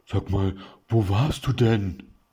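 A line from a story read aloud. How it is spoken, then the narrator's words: Sobbing outburst. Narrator (German): brach unter mehreren Schluchzern hervor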